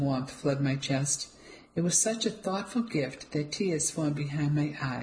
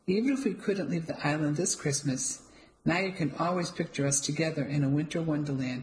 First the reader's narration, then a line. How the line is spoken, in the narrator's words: he said and chuckled to himself